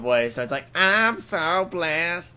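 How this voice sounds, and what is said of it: Imitation of auto-tuned pop singing. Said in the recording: “That's a disturbingly good accent. ... Or impression.”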